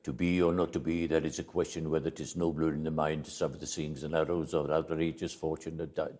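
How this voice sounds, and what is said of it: Very fast rushed recitation. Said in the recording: “it was the fastest Hamlet I've ever seen... it was so bloody fast... I did that so you'd hear my impersonation.”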